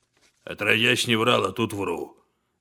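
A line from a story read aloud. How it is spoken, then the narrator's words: Mumbling. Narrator (Russian): бормочет Денис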